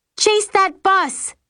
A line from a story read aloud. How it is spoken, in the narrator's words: I scream